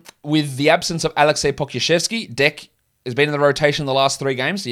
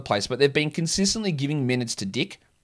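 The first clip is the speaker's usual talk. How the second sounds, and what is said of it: Put-on New Zealand accent. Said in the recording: “I don't know why I use my New Zealand accent, but it's funny.”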